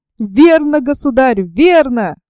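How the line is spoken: Exclaiming. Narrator (Russian): воскликнул Том Кенти

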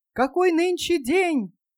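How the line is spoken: Shouting down. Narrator (Russian): крикнул Скрудж какому-то мальчишке

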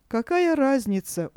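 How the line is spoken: Tired question. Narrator (Russian): устало спросила Сина

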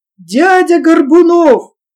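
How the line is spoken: Thin shout over noise. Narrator (Russian): крикнул Ваня тонким голосом, стараясь перекричать шум боя

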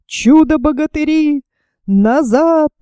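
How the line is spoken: Shouting. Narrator (Russian): закричал фельдмаршал

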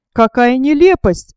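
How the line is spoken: Exclaiming. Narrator (Russian): воскликнул Кроссмен

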